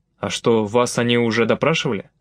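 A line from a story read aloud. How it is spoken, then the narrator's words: Plain. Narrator (Russian): спросил Николай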